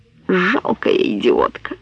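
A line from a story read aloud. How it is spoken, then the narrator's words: Exclaimed in nasty flat voice. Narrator (Russian): противным безгливым голосом воскликнула Лидия Монтовани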